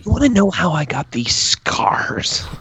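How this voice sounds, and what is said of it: Joker character voice impression. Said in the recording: “That's a good impression.”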